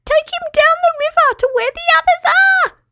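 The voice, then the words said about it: Squeaky strained character voice. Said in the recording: “squeaked Petruchio in a strained voice.”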